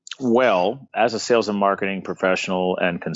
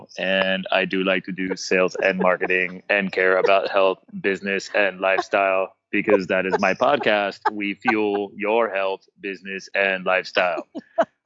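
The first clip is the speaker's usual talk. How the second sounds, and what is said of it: Robot voice. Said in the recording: “you have to do it in a robot voice ... I do my best with Mr. Roboto”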